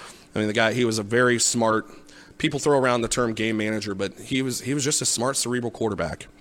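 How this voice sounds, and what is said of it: Usual voice. Nothing is said of it.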